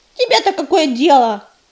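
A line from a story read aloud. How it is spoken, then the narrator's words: Snapping. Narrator (Russian): огрызнулась белка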